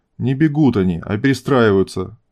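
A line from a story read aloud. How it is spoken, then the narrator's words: Stern correction. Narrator (Russian): строго поправил генерал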